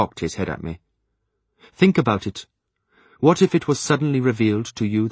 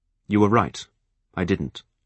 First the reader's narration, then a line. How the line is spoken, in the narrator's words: I admitted stiffly